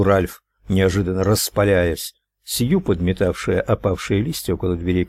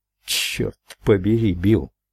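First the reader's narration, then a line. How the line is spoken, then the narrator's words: Nervous mutter. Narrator (Russian): пробормотал Ральф, нервно оглядывая лестницу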